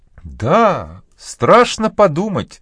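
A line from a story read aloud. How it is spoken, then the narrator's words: Exclaiming. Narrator (Russian): воскликнула миссис Пулет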